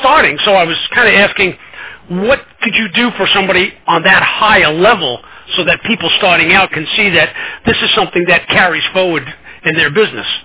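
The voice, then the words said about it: Brooklyn accent. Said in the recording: “it's my Brooklyn accent”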